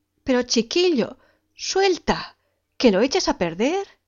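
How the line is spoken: Exclaiming. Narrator (Spanish): exclamaba ella

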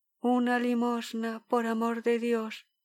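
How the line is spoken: Barely audible voice. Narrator (Spanish): dijo con voz apenas perceptible

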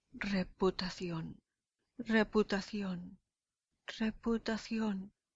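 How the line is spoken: Moaning. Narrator (Spanish): gime Casio

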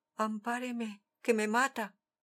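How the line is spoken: Terrified pleading. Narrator (Spanish): Un hombre pavorido suplicó

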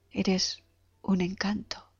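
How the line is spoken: Soft and low. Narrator (Spanish): dijo bajito y con suavidad

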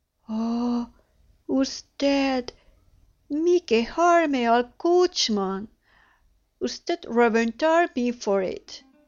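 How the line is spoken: Exclaiming, flustered. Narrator (Spanish): Se puso otra vez como la grana, exclamando

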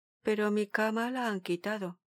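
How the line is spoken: Murmured. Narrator (Spanish): murmuró

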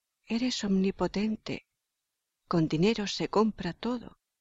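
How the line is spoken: Insidious whisper in ear. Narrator (Spanish): Una voz insidiosa susurró al oído de éste

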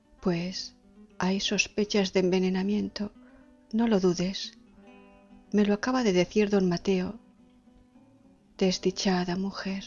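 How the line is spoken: Low voice. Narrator (Spanish): dijo en voz baja

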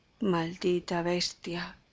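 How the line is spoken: Old man muttering. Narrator (Spanish): murmuró el viejo

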